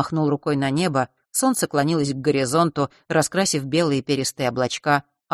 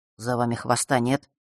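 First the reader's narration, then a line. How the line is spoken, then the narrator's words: Sudden quiet question. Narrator (Russian): вдруг тихо спросил он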